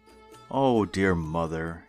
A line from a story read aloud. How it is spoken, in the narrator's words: he sighed again